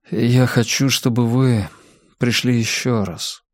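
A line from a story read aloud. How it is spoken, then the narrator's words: Mumbling. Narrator (Russian): промямлил он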